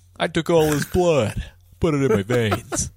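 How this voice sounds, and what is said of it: Deep jaw-tight Patrick Warburton impression. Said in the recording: “Your fucking that impression kills me ... I kind of tighten my jaw and I kind of have to, like, lean into the back of my throat a little bit ... It's kind of like mid-yawn ... I want Decoy Octopus to be voiced by Patrick Warburton”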